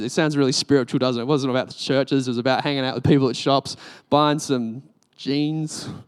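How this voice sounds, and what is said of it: Australian accent. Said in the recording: “everyone would notice that I'm Australian ... your accent's so cool”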